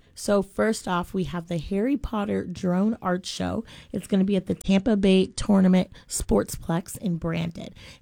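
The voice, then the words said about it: Slightly raspy voice. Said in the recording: “As you can hear, I'm still a little raspy. ... We'll call it a cute rasp”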